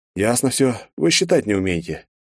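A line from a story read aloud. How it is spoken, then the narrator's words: Heavy sigh, summing up. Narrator (Russian): тяжело вздохнув, подвел я итог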